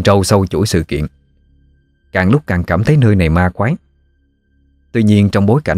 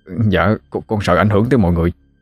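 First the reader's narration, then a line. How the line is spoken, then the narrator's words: Trembling reply. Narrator (Vietnamese): Thằng Mã run run đáp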